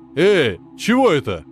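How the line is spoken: Shouting. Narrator (Russian): крикнул Джиггернаут

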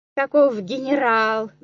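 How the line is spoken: Loud guffaw. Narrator (Russian): захохотал Кнопка

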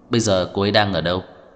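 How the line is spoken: Cold question. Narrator (Vietnamese): Tưởng Thiên Lỗi lạnh lùng hỏi

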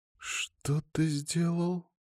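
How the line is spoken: Wheezing on inhale. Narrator (Russian): Просипела она на вдохе

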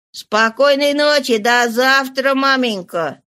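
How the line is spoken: Very tender voice. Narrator (Russian): Самым ласковым голосом повторив еще раз

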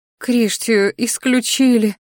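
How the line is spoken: Mother's bitter sigh. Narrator (Russian): горько вздохнула матушка

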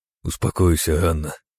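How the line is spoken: Quiet man's voice. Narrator (Russian): тихо сказал барон

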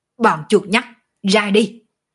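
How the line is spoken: Hoarse, coughing up blood. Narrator (Vietnamese): thanh âm đã khàn khàn, trong miệng từng ngụm hộc máu nhổ ra

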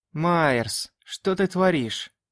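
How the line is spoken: Weary question. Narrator (Russian): устало спросил я

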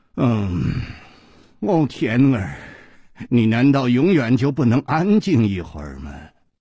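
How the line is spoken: Low, alluring voice. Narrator (Chinese): 一声低沉却充满了煽动的吸引力

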